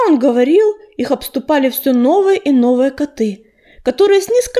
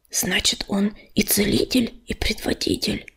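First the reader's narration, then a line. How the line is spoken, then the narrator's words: Whispering. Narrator (Russian): шепнул он Ежевике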